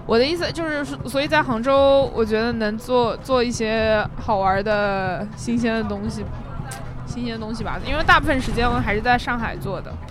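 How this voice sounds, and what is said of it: Noticeable Hangzhou accent. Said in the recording (Chinese): “我有杭州口音，我突然变成杭州口音了。...你杭州口音非常明显”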